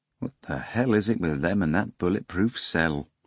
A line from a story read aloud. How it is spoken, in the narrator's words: grumbled one of the investigators